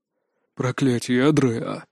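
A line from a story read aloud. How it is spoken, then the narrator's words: Breathed out. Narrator (Russian): выдохнул наставник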